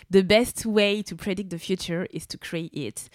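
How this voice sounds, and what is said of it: Heavy accent speaking English. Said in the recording (French): “désolée pour mon terrible accent”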